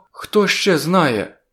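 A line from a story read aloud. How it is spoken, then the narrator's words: Frightened question. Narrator (Ukrainian): злякано запитала вона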